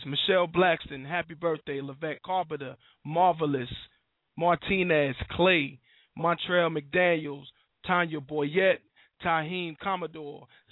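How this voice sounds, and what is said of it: Hoarse, raspy voice from a cold. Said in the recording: “I got a cold, and I might run out of breath ... I'm already hoarse. My voice is raspy”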